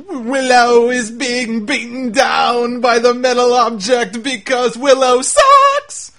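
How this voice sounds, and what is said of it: Willow character impression. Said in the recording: “He's doing his weird Willow screams... my Willow impression”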